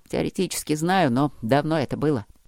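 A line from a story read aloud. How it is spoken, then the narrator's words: Muttered. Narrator (Russian): пробормотал Трот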